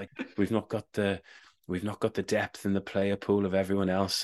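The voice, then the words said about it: Softly spoken imitated voice. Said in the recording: “it's a very good accent, actually. He's quite softly spoken.”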